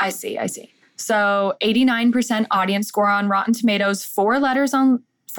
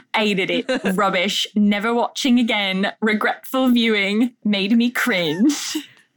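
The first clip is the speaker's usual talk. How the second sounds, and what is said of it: Put-on English accent. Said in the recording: “It's English accent. ... Oh, English accent.”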